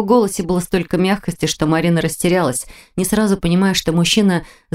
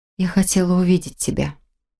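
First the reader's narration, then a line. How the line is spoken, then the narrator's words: Barely audible girl's voice. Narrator (Russian): едва слышно произнесла девушка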